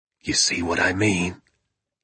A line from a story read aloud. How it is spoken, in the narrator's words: he whispered